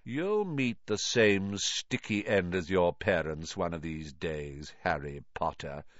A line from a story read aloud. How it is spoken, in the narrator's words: he said softly